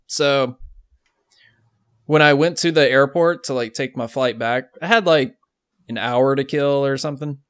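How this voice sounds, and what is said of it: Rough, bad-sounding voice. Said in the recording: “my voice is hot trash right now.”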